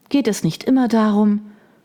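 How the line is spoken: Sighing. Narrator (German): Margaret seufzte

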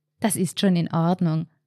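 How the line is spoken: Forced calm. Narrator (German): sagte Sabine und bemühte sich, ruhig zu klingen

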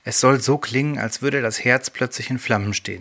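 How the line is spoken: Plain. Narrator (German): sagte

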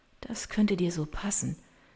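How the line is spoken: Quiet, tearful voice. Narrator (German): sagt sie mit leiser Stimme

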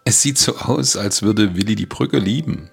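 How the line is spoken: Laughing. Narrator (German): sagte Becky lachend

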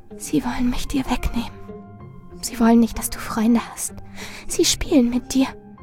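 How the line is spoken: Steady whisper. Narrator (German): Marilyn flüsterte unbeirrt

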